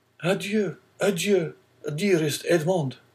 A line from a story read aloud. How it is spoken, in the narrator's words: cried Mercedes